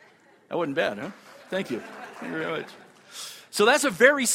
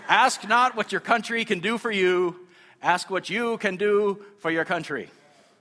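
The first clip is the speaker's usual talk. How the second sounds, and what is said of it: JFK impression. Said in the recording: “doing the JFK voice”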